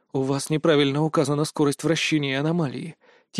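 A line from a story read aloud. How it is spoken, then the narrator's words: Quiet statement. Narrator (Russian): тихо сказал я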